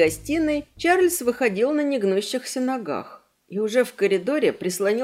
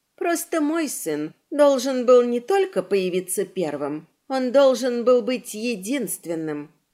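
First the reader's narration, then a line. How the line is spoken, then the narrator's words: Calm reply. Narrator (Russian): спокойно ответила она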